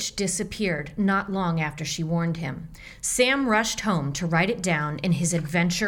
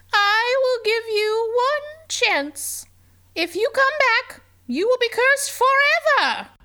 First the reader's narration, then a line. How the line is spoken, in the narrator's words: croaked